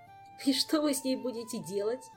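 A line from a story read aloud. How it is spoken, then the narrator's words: Giggling. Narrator (Russian): хихикнул Жак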